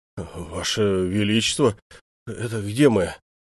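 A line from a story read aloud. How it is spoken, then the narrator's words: Forced out. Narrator (Russian): выдавил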